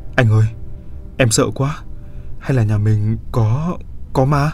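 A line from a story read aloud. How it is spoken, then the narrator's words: Trembling frightened voice. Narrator (Vietnamese): giọng bà Mai run rẩy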